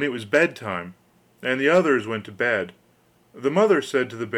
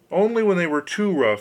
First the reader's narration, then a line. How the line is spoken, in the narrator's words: he called out